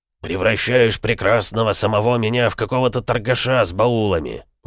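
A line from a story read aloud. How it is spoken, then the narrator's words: Grumbling. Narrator (Russian): ворчал Бронзовый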